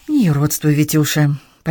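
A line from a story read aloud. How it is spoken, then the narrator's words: Almost tender. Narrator (Russian): почти ласково ответила мама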